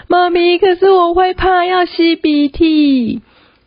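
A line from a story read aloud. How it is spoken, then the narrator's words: Crying. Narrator (Chinese): 她就开始哭说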